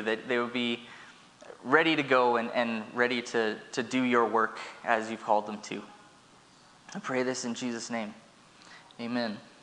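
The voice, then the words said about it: Emotional, choked-up voice. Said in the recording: “I have no idea why I got a little emotional there”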